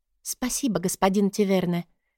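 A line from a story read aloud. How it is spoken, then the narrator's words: Quiet thanks. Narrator (Russian): тихо поблагодарила его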